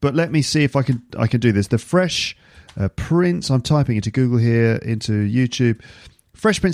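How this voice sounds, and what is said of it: Usual voice. Nothing is said of it.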